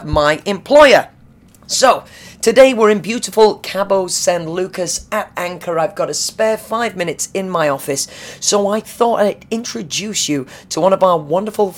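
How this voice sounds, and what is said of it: Tired, vocally fatigued voice. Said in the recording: “You sound different. ... my work voice. ... My exhausted, tired... ... Vocally fatigued work voice.”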